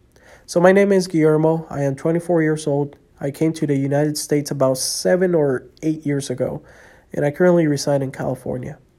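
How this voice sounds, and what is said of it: Slight non-native English accent. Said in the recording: “I am still learning English, so if I have a little bit of an accent”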